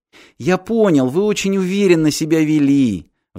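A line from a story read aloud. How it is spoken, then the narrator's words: Sighing. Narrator (Russian): вздохнул Гатти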